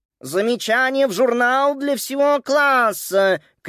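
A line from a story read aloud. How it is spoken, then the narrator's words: Shouted. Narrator (Russian): крикнула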